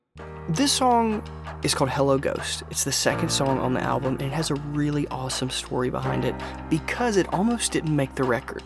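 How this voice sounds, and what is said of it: Whispering. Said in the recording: “I have to kind of whisper on this one”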